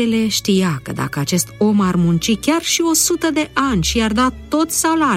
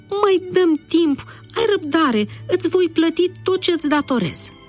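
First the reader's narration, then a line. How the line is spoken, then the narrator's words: Pleading. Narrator (Romanian): implora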